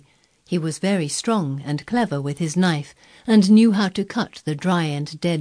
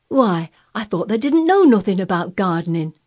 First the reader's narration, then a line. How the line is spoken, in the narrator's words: exclaimed